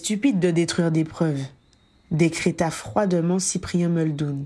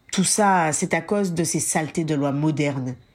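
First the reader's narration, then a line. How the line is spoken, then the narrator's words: Grumbling. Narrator (French): grogna Christopher Summers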